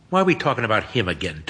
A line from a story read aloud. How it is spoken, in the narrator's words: Toby mutters